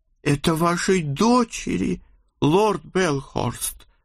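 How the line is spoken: Strained embarrassed utterance. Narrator (Russian): С трудом выдавил он, краснее, как редиска

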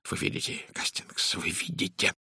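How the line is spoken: Excited whisper. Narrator (Russian): возбужденно прошептал он

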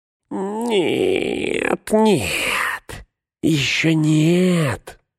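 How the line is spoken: Whimpering. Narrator (Russian): заскулил Горлум

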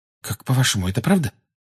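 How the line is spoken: Anxious whisper. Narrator (Russian): тревожно прошептала Гермиона

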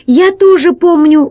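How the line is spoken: Exclaiming. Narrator (Russian): воскликнул Пашка

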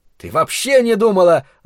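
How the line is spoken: Angry interruption. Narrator (Russian): зло оборвал ее Ларри

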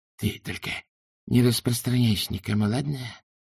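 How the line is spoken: Hiss. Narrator (Russian): прошипел Хью

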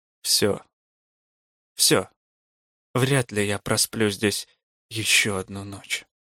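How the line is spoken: Dead, lifeless voice. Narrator (Russian): кто-то другой во мне сказал, знакомым уже мертвым голосом

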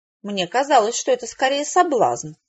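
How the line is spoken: Thoughtful. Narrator (Russian): задумчиво проговорила Беатрича

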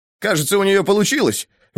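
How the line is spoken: Excited exclamation. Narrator (Russian): возбужденно воскликнул он

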